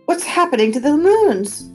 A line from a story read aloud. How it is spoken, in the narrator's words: snapped